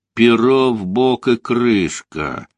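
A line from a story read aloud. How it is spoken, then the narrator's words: Through gritted teeth. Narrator (Russian): процедил сквозь зубы комод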